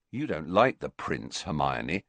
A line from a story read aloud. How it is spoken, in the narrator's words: he added sternly